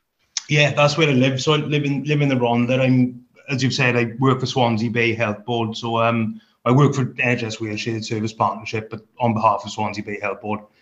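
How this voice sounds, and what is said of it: Welsh accent. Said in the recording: “my accent gives me away, even though I've got a Scottish name. But yeah, born and bred in Wales”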